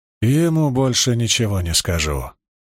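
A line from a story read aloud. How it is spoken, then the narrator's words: Soft old woman's reply. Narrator (Russian): мягко ответила князю старуха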